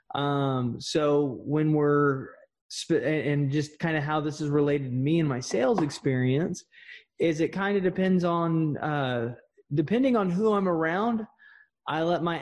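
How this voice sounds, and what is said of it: Thick Texas drawl. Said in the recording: “I naturally have a very thick, Texas drawl.”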